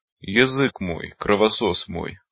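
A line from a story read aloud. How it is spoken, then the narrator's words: Groaning. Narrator (Russian): простонал Колян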